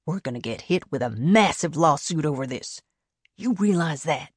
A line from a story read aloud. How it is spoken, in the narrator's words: He kept his voice low